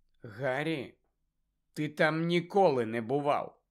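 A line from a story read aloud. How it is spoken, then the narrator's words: Calm objection. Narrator (Ukrainian): спокійно заперечила Герміона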